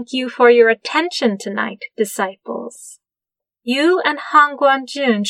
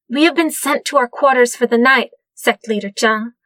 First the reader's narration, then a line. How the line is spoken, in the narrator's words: Jing Yi blurted out